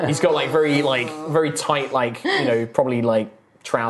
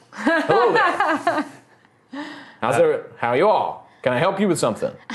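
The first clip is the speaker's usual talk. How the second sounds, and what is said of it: Character voice, mild Southern US accent. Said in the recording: “he doesn't have a fully deep South accent”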